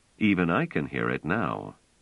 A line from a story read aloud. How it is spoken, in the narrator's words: Trevise said dryly